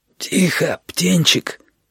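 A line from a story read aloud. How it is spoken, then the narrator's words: Hoarse wheeze. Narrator (Russian): просипел он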